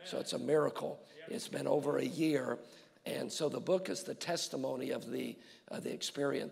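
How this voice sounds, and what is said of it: Weak, strained voice. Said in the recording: “I apologize for my voice. This is really all I have tonight. ... At least the pastor can't scream at you too much tonight.”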